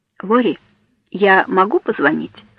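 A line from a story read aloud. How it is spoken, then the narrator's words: Plain question. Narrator (Russian): спросил он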